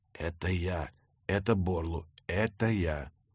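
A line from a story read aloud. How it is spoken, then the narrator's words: Whispered. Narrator (Russian): зашептал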